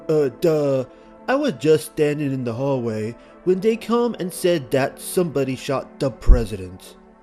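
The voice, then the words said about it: Deliberately bad imitation of another person's voice. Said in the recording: “my terrible impression of Lee Harvey Oswald speaking to the press.”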